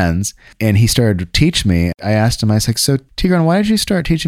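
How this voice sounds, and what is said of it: Usual voice. Nothing is said of it.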